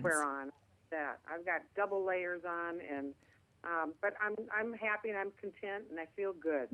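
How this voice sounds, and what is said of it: Minnesota accent. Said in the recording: “I'm talking too fast, being up from the up north here ... my Minnesota accent”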